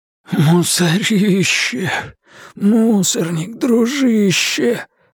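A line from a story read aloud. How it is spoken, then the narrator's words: Wheezy rasp. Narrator (Russian): просипел он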